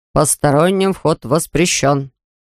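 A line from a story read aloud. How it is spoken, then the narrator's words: Father's stern warning. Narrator (Russian): папа строго-настрого предупреждал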